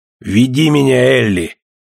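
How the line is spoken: Brave growl. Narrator (Russian): мужественно прорычал он

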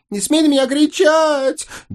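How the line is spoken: Helpless sobbing. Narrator (Russian): Бессильно разрыдалась Озрела

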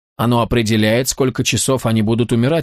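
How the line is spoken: Plain. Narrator (Russian): ответил Тони

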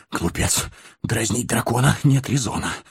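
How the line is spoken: Mutter while running. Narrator (Russian): бормотал Бильбо на бегу

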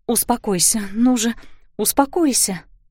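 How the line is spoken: Tender soothing whisper. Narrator (Russian): ласково шептала Кларисса

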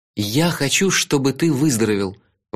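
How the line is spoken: Agitated. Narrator (Russian): взволнованно сказал я

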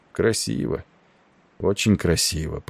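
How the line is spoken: Muttering. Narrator (Russian): пробормотал он

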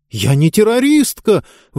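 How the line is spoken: Shouted out. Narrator (Russian): выкрикнула Диба

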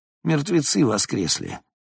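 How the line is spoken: Heavy sigh. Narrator (Russian): Бенке тяжело вздохнул

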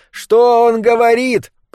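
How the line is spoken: Shouted. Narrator (Russian): прокричал он

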